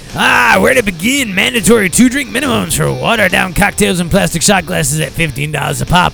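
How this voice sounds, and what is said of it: Imitates another person's voice. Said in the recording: “trying to do his voice.”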